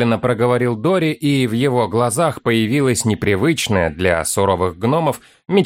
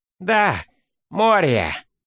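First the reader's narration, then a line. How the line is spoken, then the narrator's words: Sighing drawl, young voice. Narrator (Russian): Вздохнув, протянул первым вступивший в разговор молодой гном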